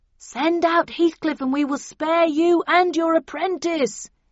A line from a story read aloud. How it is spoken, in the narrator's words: yelled the bullhorn again